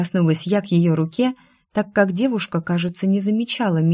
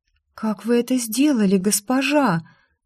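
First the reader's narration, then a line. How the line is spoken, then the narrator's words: Breathless exhale. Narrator (Russian): выдохнула она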